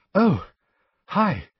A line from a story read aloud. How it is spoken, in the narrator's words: she said breathlessly